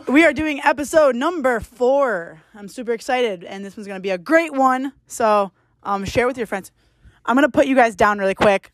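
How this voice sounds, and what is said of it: Yelling, loud excited delivery. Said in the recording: “Stop yelling”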